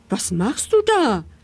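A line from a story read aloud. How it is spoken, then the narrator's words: Small boy calling upward. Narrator (German): rief der kleine Hevelmann hinauf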